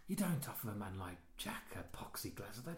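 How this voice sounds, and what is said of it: Soft, whispery imitated accent. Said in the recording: “the accent in it that he uses in that, you know, it's kind of like really soft and whispers”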